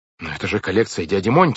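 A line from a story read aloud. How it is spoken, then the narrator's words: Shouting. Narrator (Russian): закричал Клаус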